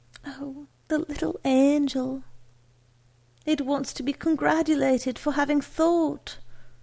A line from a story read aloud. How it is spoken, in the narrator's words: cried Mrs